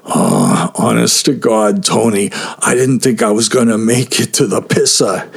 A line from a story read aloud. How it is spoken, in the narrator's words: laughed